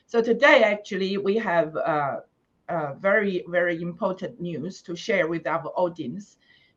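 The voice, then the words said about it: Husky, hoarse voice. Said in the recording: “I would apologize for my uh, husky voice. I caught flu, so got this uh, sexy voice”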